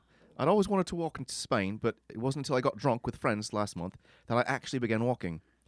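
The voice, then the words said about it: Put-on British accent. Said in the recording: “I'm just trying to do it in a British accent here.”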